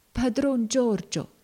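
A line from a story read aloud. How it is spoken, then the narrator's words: Feeble voice. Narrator (Italian): disse Tom parlando con voce fievole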